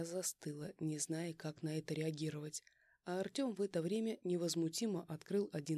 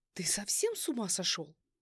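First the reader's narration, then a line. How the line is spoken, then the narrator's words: Shrill squeal. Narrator (Russian): Взвизгнула я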